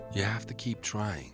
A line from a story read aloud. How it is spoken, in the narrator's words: Bill would whisper to him